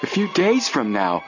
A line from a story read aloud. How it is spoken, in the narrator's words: Joe exclaimed, horrified